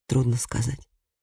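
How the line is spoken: Quiet answer. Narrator (Russian): тихо ответил Матиас

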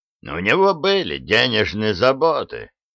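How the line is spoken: Plain. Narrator (Russian): сказал он

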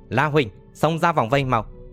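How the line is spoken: Shouting. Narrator (Vietnamese): Hạng Chân quát

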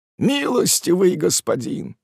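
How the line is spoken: Pleading. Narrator (Russian): взмолился Спеогудри

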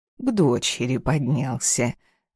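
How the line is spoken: Plain. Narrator (Russian): ответила мама Жанна

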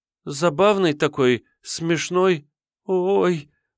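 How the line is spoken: Frightened gasp, young woman. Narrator (Russian): испуганно ахнула девушка

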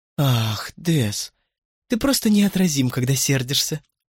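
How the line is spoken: Exclaiming. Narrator (Russian): воскликнула Клэр

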